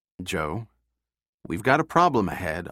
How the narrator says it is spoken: Austin said, doing his best to keep his voice calm

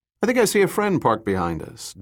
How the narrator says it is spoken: Dirk said calmly to Sarah

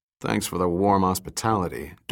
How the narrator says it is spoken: Dirk muttered at Kang

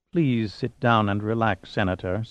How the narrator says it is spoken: Suma said in a quiet but iceberg tone

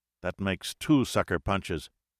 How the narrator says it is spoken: he said softly

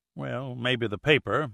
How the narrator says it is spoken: muttered Northrop, beginning to feel distinctly uneasy

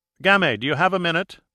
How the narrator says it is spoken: called out from his study

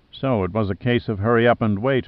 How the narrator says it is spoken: muttered

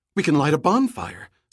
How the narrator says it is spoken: Summer suggested excitedly

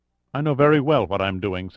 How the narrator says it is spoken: said Amar

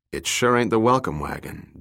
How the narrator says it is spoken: Dirk said dryly

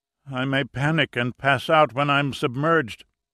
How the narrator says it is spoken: Marquez moaned

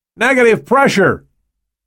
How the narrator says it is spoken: the technician shouted

